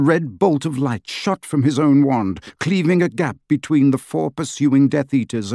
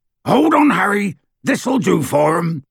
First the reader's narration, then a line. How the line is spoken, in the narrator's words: roared Hagrid